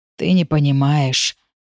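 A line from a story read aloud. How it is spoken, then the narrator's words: Father, hoarse unrecognizable voice. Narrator (Russian): хриплым неузнаваемым голосом отвечает отец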